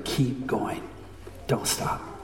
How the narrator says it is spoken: The pianist kept whispering

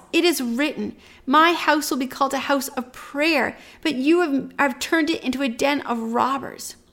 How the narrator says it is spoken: yells

